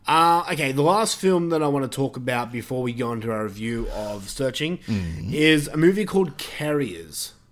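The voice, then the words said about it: Australian accent. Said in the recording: “my Australian accent is probably making that film sound funny”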